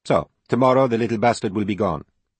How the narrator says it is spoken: Francesca said coldly, her eyes tired and angry

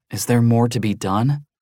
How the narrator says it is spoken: Daniel asked wearily

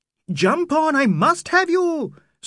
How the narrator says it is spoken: screamed Aziz beside himself

